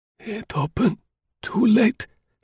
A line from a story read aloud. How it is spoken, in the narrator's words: whispered